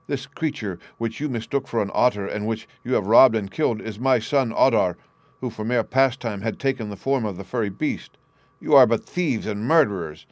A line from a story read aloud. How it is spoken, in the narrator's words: The farmer gazed with horror ... and cried out